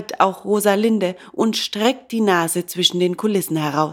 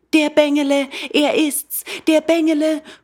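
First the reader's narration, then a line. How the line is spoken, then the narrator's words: Delighted joyful call. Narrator (German): ruft Hänsele jetzt ebenso freudig entzückt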